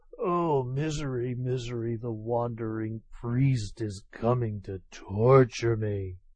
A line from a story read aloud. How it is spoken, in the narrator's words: undone by such ceaseless vexation, Tokubei fell ill, and kept muttering